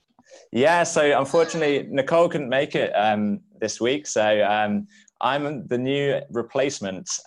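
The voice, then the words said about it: British accent. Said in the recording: “You might be able to notice from the accent that I'm from the UK”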